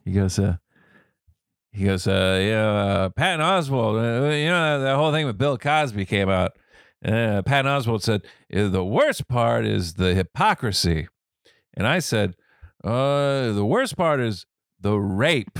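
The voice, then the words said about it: Norm MacDonald impression. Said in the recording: “this is my Norm MacDonald impression... That's good... It's really good.”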